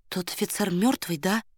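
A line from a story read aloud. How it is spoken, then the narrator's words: Whispered question. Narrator (Russian): шепотом спросила Варя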